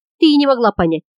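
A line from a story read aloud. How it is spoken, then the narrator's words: Grumbling. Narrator (Russian): ворчал Леган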